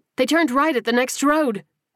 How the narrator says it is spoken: Sparks yelled back

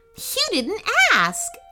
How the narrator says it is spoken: laughed the princess

